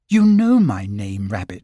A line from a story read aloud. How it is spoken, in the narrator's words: said Christopher Robin